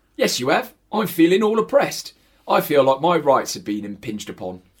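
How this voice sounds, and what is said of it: Put-on Cockney accent. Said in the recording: “we've got to do Cockney accents for this”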